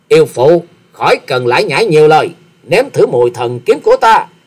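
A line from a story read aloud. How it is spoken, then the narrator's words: Glaring, loud angry bark. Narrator (Vietnamese): Hoa Sĩ Kiệt trợn trừng nạt to nói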